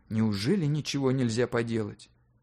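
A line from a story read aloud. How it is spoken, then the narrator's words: Whispered question. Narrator (Russian): шепотом спросил у него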